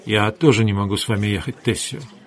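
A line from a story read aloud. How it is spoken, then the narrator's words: Soft. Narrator (Russian): Хейген мягко сказал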